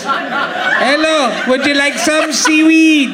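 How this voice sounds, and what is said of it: Put-on Welsh accent, pitch perfect. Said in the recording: “I am from Wales ... It's pitch perfect ... It sort of made me feel at home”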